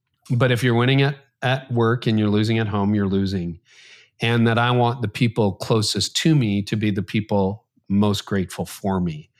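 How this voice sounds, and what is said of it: Emotional, choked-up voice. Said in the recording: “getting choked up.”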